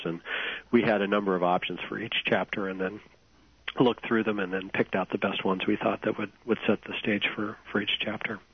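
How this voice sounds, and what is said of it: Congested, hoarse voice from a cold. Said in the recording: “I have a bad cold, so I'm losing my voice a little bit ... you're coughing.”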